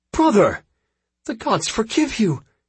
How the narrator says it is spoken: cried Nereti

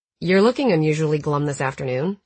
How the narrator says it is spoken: he said

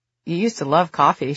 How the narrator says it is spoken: she said

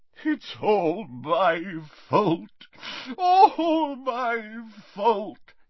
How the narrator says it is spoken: he sobbed

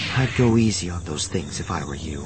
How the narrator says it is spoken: Mara said from behind him, her voice cool and under control again

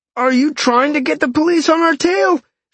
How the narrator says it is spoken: Sean yelled

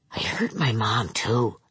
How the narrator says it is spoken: Bing whispered

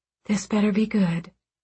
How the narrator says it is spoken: quietly said

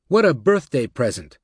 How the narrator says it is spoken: Blankfein said to Steele brightly

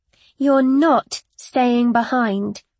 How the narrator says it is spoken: I repeated more firmly

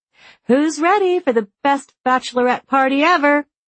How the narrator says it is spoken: she called out

